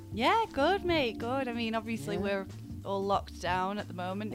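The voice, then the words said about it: Northern English, Manchester accent. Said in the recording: “accent ... she is based up at North, specifically in Manchester”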